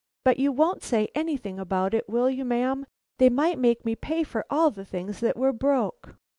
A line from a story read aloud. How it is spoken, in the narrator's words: Instantly she cried